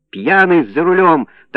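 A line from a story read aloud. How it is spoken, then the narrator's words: Triumphant shout, old man. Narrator (Russian): торжествующе кричал старик Гуськов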